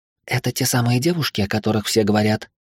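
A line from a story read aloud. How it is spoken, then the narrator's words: Quiet question. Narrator (Russian): герцогиня тихо спросила меня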